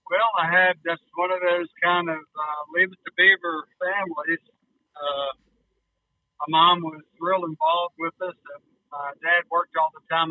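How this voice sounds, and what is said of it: Distinct southern US accent. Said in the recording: “his southern accent is very distinct”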